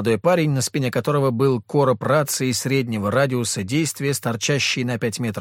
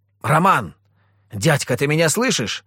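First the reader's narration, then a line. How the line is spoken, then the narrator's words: Repeated shout. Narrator (Russian): крикнул я еще раз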